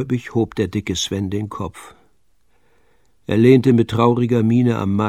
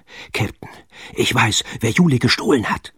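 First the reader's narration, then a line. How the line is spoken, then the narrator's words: Panting, out of breath. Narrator (German): keuchte Pitt, als er an Bord sprang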